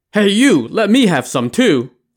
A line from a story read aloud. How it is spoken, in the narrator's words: a loud voice cried out